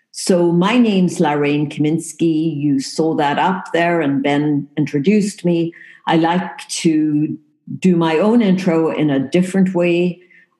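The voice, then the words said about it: South African accent. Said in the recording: “when people listen to the accent, they make assumptions ... I'm not from Poland and I am not from England ... I was actually born in the tip of Africa ... Cape Town, South Africa”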